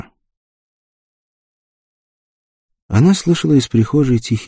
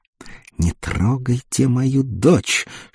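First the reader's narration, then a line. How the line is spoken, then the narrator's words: Mother hissing hysterically. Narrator (Russian): шипела истерично мать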